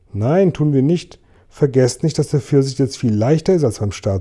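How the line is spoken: Plain. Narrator (German): sagte James

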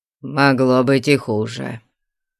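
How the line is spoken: Grumbling. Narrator (Russian): буркнул

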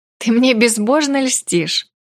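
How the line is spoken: Laughing. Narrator (Russian): рассмеялась

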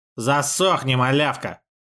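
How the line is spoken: Snapped. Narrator (Russian): огрызнулся

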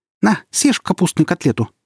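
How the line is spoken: Squeaky voice. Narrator (Russian): пропищал

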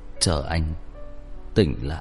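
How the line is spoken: Breathless, soft, strained. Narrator (Vietnamese): Hắn thở hổn hển một lúc lâu mới nhỏ giọng vất vả nói

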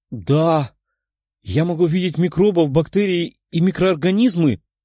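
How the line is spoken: Exclaimed, young woman. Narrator (Russian): воскликнула девушка

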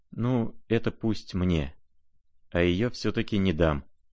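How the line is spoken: Quiet speech. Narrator (Russian): тихо проговорил он наконец

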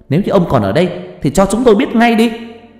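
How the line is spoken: Defiant wailing shout. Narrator (Vietnamese): Trà như không chấp nhận, cô gào lên

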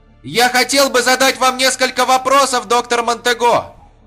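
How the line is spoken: Shouting. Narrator (Russian): крикнул он

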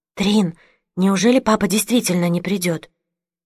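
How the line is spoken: Whispered question. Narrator (Russian): я шепотом спросила

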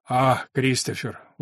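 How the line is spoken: Tired, disappointed. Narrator (Russian): устало и разочарованно ответил Бергман

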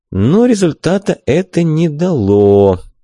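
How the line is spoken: Drawling. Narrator (Russian): протянул я

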